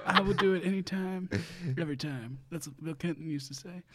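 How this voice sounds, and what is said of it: Imitates another person's voice. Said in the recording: “his Bill Clinton impression ... do a Bill Clinton impression”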